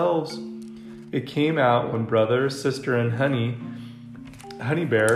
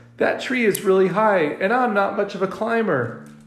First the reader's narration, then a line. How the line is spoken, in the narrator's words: whined the cub they called Scuzz